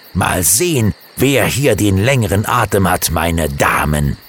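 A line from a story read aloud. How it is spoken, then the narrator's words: Angry growl. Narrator (German): knurrte Alex zornig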